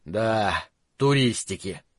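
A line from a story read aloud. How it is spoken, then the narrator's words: Mutter. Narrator (Russian): пробормотал он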